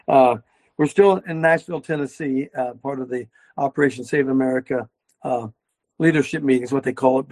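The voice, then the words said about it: Raspy, hoarse voice. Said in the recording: “My throat's kind of is clearing up a lot. But the old raspy coaches, especially raspy”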